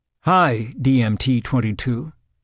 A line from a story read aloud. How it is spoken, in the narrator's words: she said